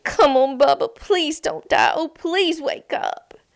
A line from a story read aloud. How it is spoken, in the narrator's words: Jack pleaded